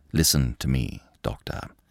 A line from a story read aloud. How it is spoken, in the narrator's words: said Lupin, in a steady voice